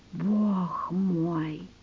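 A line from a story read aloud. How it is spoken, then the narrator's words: Whispered. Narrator (Russian): прошептал ювелир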